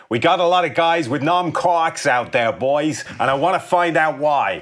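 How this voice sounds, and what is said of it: Put-on Boston accent. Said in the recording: “he's from Boston ... where you think that accent is from”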